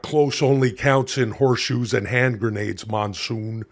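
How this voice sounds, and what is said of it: Jesse Ventura impression. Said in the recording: “I was impersonating all sorts of wrestlers. That's when I started impersonating Jesse Ventura.”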